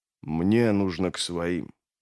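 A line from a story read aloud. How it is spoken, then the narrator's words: Mutter. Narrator (Russian): пробормотал он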